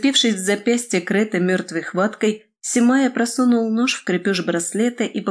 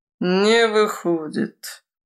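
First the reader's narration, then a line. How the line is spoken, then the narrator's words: Disappointed drawl. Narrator (Russian): разочарованно протянул Прохвост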